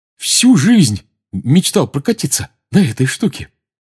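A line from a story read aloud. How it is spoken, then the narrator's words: Joyful. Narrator (Russian): радостно сказал Рон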